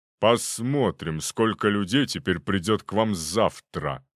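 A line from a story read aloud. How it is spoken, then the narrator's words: Said through gritted teeth. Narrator (Russian): процедил он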